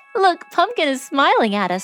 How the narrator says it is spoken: laughed Babette

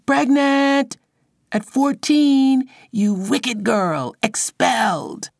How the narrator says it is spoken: scream

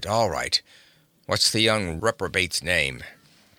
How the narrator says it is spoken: he grunted

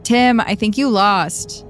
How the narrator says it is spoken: called out

